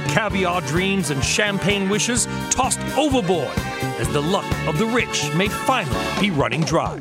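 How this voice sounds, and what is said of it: Bad put-on British accent. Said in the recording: “my bad British accent ... We were trying to be a little bit tongue in cheek there”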